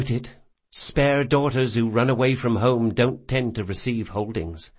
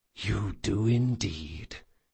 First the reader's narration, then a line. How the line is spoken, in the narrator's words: he whispered